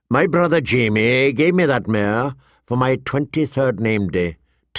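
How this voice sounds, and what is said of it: Flat, toneless voice. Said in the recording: “in a flat voice”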